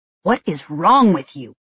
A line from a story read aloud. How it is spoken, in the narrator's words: Jerkface hissed at me